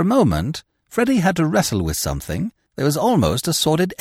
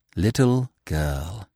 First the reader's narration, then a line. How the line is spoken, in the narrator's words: he murmured